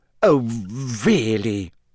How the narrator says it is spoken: she sputtered, going rather red

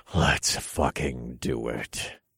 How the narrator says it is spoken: I answered in a low growl that sounded like a starving wolf

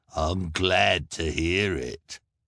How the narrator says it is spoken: the hook-handed man sneered

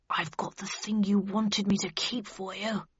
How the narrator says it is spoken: whispered Bradshaw under his breath

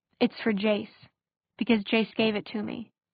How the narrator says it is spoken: she said before she could help herself

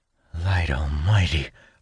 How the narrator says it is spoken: I murmur

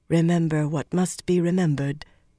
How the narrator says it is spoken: Anaya murmured

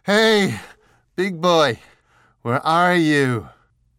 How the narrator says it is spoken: sucking the air into her shattered ribcage, she shouted

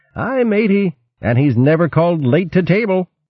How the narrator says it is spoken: winked at Trimp and called out

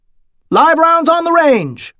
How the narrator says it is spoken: announced loudly

